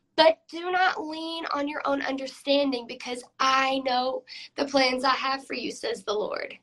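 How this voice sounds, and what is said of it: Hoarse, nearly lost voice. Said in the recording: “my voice is completely out”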